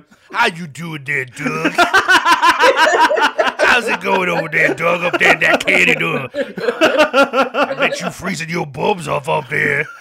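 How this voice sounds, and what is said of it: Put-on funny character voice. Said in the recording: “you're trying to do some sort of funny voice here”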